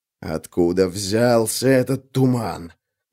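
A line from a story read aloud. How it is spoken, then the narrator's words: Hissed. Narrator (Russian): прошипел жилец Курганов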